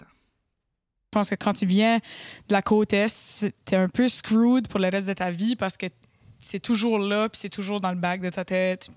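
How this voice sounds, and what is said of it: Acadian French accent. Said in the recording (French): “En plus d'être acadienne, puis d'avoir l'accent que j'ai”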